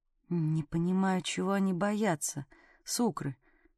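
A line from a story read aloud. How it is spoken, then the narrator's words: Muttered. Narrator (Russian): пробормотала в ответ Конрад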